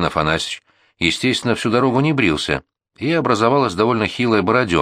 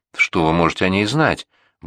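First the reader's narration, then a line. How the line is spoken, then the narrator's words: Grumble. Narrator (Russian): буркнул воин Афанасьевич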